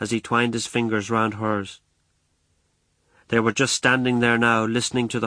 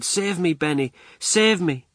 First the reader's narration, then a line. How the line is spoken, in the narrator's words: cried